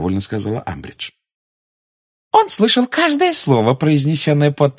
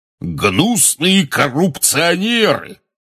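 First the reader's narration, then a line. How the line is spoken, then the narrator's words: Roaring portly wizard. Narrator (Russian): взревел портрет дородного красноносого волшебника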